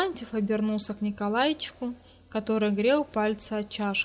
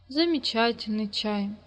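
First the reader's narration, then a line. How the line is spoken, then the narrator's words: Sighed. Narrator (Russian): вздохнула Вера Осиповна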